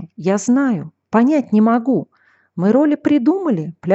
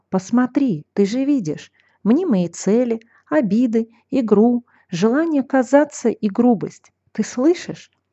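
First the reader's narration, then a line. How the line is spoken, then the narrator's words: Whisper. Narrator (Russian): голос шептал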